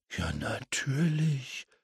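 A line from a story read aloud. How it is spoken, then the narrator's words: Muttering to himself. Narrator (German): murmelte James vor sich hin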